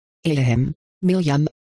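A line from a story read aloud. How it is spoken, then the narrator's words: Slightly fearful voice. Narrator (German): sagte sie mit leicht ängstlicher Stimme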